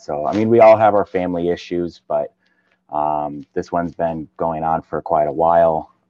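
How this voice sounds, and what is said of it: Northern US Midwestern accent. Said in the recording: “I can tell your accent ... say bag ... he's from up north somewhere”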